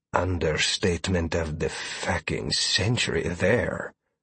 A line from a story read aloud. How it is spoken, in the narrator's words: Sawyer muttered loud enough for everyone to hear